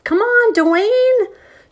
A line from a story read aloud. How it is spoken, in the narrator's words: would holler